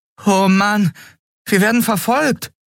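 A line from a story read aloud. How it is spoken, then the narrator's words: Boy exclaiming. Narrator (German): rief der Junge aus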